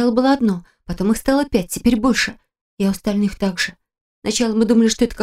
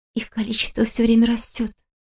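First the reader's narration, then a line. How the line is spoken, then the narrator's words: Whispered explanation. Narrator (Russian): шепотом объяснила Кристина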